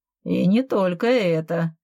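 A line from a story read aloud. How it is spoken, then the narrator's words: Laughing. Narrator (Russian): рассмеялся я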